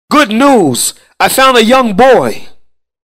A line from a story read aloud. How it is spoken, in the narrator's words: he shouted with joy